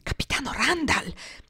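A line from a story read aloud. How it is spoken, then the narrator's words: Breathless incredulous whisper. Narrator (Italian): bisbigliò ansante e incredula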